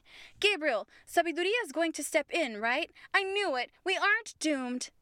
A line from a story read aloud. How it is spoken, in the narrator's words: Diana exclaimed